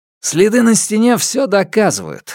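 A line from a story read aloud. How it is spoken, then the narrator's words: Joyful report. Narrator (Russian): радостно доложил Линь Тао наставнику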